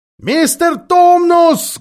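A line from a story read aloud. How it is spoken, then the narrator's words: Loud shout into ear. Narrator (Russian): громко закричала Люси прямо в ухо Фавну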